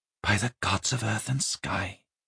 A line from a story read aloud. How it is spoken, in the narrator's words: she breathed